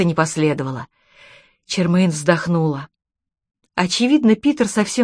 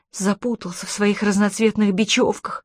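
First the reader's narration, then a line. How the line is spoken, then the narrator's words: Grumbled. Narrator (Russian): пробурчала Чермейн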